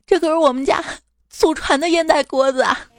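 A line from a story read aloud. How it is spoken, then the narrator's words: Old man crying. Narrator (Chinese): 老公的爸爸哭着说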